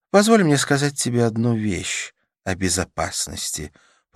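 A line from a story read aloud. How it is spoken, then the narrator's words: Purring. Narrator (Russian): промурлыкала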